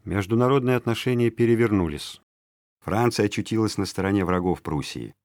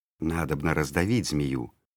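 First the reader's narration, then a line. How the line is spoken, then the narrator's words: Conspiratorial whispering. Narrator (Russian): шептали Петру враги Екатерины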